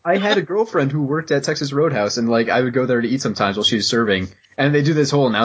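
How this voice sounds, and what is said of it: Usual voice. Nothing is said of it.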